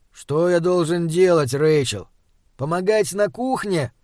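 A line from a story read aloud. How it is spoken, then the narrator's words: Displeased grumble. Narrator (Russian): пробурчал он недовольно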